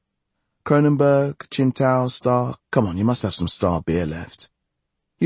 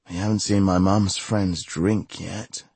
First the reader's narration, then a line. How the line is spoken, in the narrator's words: she sighed